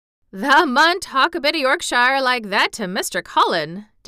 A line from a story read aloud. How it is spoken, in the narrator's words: Dickon chuckled